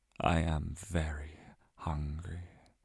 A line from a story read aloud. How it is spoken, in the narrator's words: my stomach rumbled